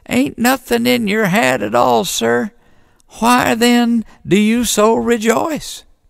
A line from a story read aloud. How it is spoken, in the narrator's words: said the deacon in a quivery little voice